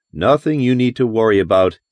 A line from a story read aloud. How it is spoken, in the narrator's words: Ken laughed